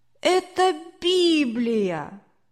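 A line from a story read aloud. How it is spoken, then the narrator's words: Annoyed boy's exclamation. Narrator (Russian): мальчик воскликнул досадно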